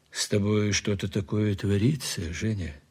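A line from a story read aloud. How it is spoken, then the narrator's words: Quiet. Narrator (Russian): сказал тихо Платонов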